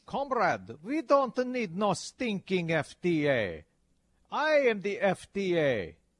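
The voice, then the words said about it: Bad put-on Russian accent. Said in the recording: “my bad Russian accent. ... Bad emphasis on bad. ... All your accents start to sound the same after a while.”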